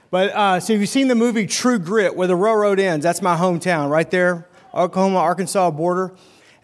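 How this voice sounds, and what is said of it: Arkansas accent. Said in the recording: “a little bit different accent than a typical Wisconsin accent, it's because I grew up in Arkansas.”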